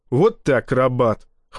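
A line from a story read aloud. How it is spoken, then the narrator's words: Snort. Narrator (Russian): хмыкнул напалм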